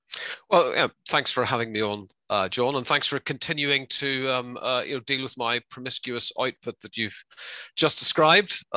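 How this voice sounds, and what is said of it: Northern Irish accent. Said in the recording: “you can probably tell from my accent... that I'm from Northern Ireland”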